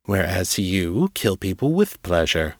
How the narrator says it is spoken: Janus said

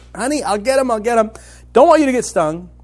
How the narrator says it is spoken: still yelling

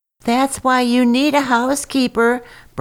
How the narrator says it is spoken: Br'er Skunk cried through the door

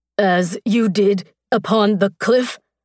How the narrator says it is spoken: Each word was a grunt from between clenched teeth

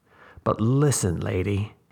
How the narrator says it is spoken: he said, and paused and made his tone more ominous still

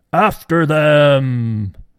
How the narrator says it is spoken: Pharaoh yelled out

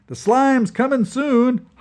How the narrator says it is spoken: hollered Revel

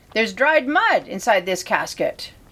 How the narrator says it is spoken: exclaimed

